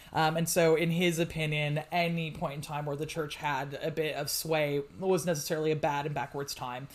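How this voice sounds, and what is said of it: American accent. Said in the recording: “as you can tell from my accent, originally from the States”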